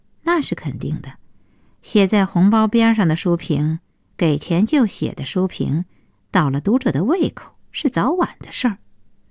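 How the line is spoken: Cold. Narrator (Chinese): 顾小西冷冷的接茬说

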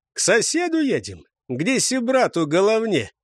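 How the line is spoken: Joyful announcement. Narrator (Russian): радостно объявил Лигуй

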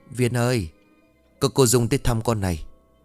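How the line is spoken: Mother whispering. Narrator (Vietnamese): mẹ Viên bước vào rồi thì thầm

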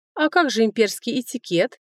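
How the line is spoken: Snide question. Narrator (Russian): ехидно спросила Мэйд

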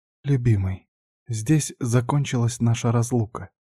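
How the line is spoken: Quiet, tender. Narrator (Russian): тихо сказала она

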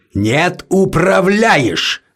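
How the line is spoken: Roared. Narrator (Russian): взревел Мерле

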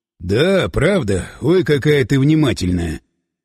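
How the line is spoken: Amplified gruff grumble. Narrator (Russian): Буркнул Власов своим усиленным голосом

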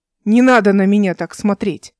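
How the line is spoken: Irritated. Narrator (Russian): сказала она раздраженно

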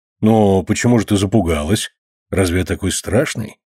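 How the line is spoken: Plain. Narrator (Russian): спросил капитан

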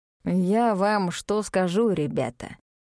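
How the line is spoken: Lazy drawl. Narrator (Russian): Лениво оглядывая корчму, сказал мистер Кадо

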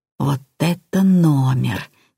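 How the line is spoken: Quiet. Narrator (Russian): тихо сказал он

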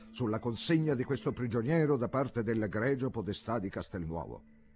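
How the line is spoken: Shouted. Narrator (Italian): gridò

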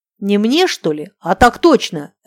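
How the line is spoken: Barked. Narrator (Russian): рявкнул Барсоев

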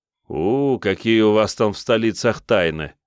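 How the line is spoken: Laughing. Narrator (Russian): засмеялся я

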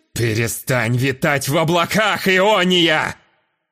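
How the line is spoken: Manic vicious snap. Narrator (Russian): Безумно злобно огрызнулся аристократ, словно и он тоже впал в одержимость

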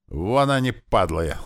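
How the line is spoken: Yelled. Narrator (Russian): орал Слива

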